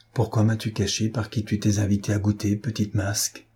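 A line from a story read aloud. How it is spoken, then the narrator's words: Old woman, softly. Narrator (French): lui dit la vieille femme tout bas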